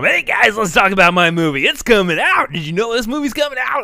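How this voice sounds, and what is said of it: Comic demon bear character voice. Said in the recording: “like my impression ... the Demon Bear”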